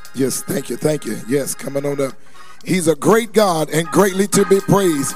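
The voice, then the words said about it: Hoarse voice. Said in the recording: “maybe because I'm hoarse”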